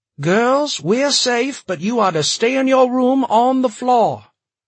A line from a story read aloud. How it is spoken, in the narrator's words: Jen shouted